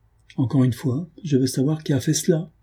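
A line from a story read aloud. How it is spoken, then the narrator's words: Quavering voice. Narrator (French): dit-elle d'une voix chevrotante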